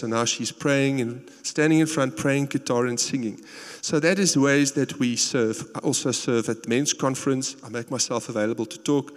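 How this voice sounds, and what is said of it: South African accent. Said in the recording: “my South African accent ... the guy with the South African accent”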